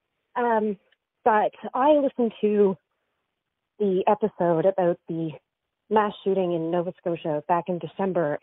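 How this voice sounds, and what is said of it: Breathless, out-of-breath voice. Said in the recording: “out of breath.”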